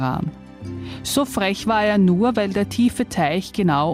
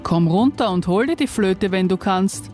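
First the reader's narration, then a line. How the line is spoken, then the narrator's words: Plain. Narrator (German): sagte Lacaniana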